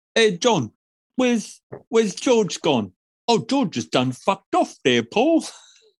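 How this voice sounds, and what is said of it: Unconvincing Beatles-style Liverpool accent. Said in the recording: “my awesome Beatles accent. Can you tell I'm accent master? ... No, that didn't come through at all.”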